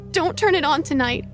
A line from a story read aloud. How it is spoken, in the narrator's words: he exclaims